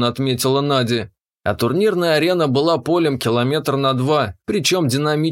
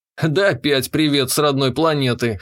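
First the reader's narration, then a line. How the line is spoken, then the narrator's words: Wry snort. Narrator (Russian): хмыкнул я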